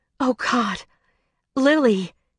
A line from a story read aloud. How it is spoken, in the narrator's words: Winter moaned